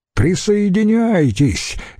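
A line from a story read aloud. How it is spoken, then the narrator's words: Cheerful shout. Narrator (Russian): весело крикнул Помпей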